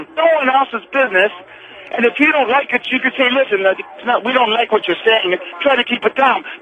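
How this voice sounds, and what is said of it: Thick Canadian accent. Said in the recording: “your thick Canadian accent ... the man's Canadian accent”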